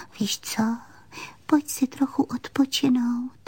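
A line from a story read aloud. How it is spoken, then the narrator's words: Leaning in, whispered. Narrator (Czech): Panenka se naklonila a pošeptala jí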